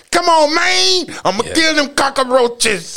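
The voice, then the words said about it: Mock Scarface-style gangster accent. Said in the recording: “he would go from a New Orleans accent to a Scarface accent”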